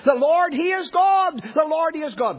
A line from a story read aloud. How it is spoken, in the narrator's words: Ahab the king cried out